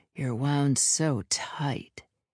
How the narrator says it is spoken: he purred, breath hot on my neck

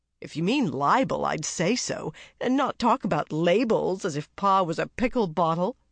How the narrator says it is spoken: advised Joe, laughing

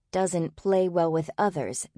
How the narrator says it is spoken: they'd said

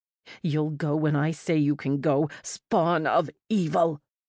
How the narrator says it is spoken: Words spat at me

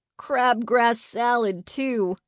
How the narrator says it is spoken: Eddie giggled

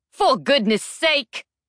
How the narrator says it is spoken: shouted Weapons Master Victory

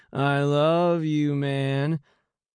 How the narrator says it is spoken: slurring

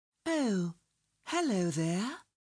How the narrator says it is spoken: she sang in her most beautiful voice

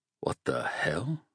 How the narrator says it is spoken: mumbled

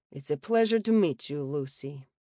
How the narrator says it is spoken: he rumbled quietly

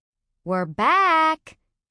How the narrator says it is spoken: called out

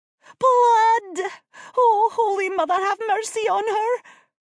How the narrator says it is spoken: Sobbing

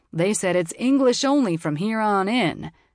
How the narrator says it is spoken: he said in a boisterous drawl

